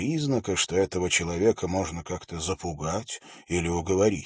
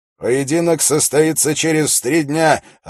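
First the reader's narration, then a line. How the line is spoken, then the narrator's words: Loud announcement. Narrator (Russian): объявил Холт громко, чтобы его слышали все собравшиеся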